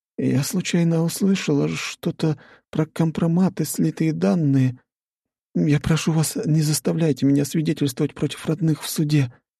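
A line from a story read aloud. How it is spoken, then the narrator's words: Pleading. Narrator (Russian): взмолилась Евдокия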